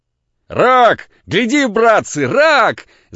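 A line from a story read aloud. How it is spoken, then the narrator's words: Triumphant shout. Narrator (Russian): закричал торжествующий Кирюха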